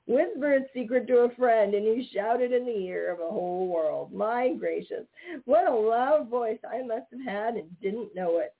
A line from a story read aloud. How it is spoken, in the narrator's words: said Johnny Chuck, wiping the tears of laughter from his eyes